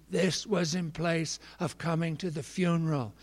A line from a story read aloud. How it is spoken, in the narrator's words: rasped in a quavering voice